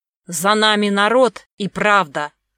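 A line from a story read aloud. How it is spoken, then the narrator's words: Growled. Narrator (Russian): прорычал Волков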